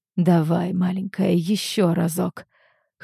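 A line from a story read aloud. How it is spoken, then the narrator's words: Hoarse whisper in ear. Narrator (Russian): хрипит Келлан мне на ухо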